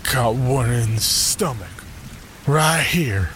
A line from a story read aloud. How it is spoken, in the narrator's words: my dad slurred